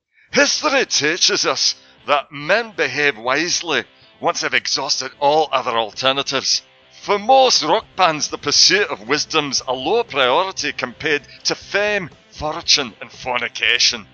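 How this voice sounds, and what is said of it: Put-on Scottish accent. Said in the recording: “my best Bill O'Connell accent ... if there are any Scots out there, you can please write back and tell me whether I've just”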